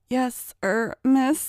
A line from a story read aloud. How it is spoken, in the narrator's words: he stammered